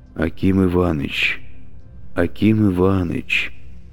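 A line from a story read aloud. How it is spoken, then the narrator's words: Sleepy mumble. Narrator (Russian): бормотал он во сне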